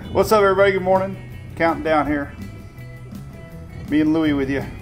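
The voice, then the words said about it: Country twang accent. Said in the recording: “Got a little country twang today. A little Wednesday. Wacky Wednesday twang.”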